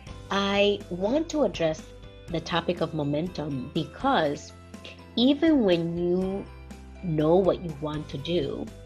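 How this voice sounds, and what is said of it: Congested, slightly funny-sounding voice. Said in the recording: “I have a little bit of a cold, so my voice sounds a little bit funny”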